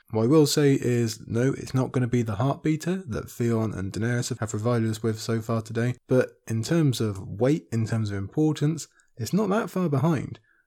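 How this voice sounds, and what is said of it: Tired, fading voice. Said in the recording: “You can probably hear my voice is beginning to go”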